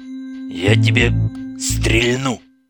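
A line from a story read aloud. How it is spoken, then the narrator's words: Deep voice, behind door. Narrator (Russian): пробасил кто-то за дверью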